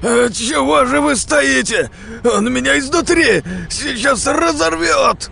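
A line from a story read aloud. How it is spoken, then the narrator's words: Shouting. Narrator (Russian): кричал сектант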